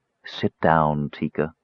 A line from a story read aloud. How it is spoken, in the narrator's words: Desra murmured